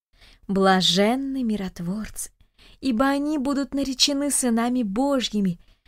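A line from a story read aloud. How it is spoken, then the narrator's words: Old women in unison. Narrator (Russian): дружно поддержали бабушки слова дедушки Даниила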